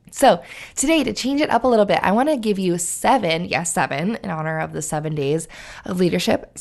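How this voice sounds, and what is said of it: Strained, fading voice. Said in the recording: “I think I might be losing my voice,”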